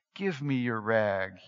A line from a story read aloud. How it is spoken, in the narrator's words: said gently